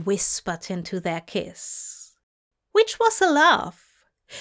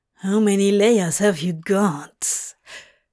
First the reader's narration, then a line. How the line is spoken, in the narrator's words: Crowley growled